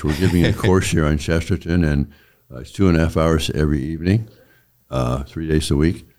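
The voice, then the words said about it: Strained, worn-out voice. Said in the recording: “My voice is not here. ... I've used off my reserves of vocal energy.”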